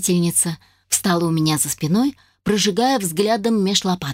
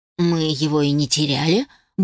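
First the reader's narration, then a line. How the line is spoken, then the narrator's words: Grumbled. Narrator (Russian): буркнула я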